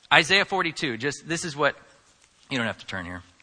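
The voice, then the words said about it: Mumbling, unclear speech. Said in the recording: “I'm mumbling”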